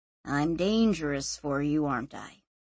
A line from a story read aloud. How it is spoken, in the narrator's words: He said quietly